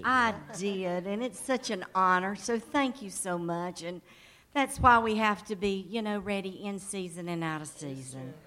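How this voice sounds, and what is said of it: Southern US accent. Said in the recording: “As you can hear, the southern accent. Originally from North Carolina.”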